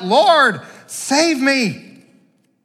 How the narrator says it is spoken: He cried out

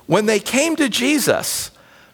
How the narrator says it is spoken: they pleaded earnestly with him

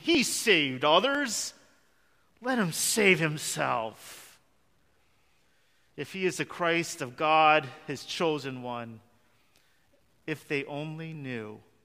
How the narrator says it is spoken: They scoffed at him, saying

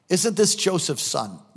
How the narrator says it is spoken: they asked

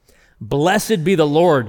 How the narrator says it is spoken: Jethro exclaimed

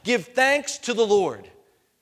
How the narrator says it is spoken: everyone in that moment would shout out three times

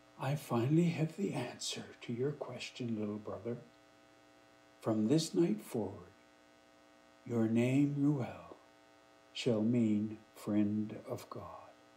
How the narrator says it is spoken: Neget said softly

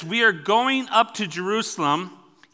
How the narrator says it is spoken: he said

